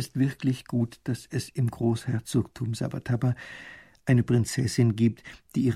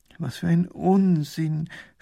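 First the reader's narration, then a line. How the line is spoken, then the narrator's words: Groaning. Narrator (German): stöhnt Professor Pfiffikus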